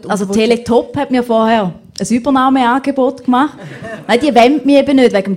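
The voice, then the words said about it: Eastern Swiss German dialect. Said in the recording (German): “Dialekt ... Sogar die Walliser und auch wir Ostschweizer müssen vorkommen”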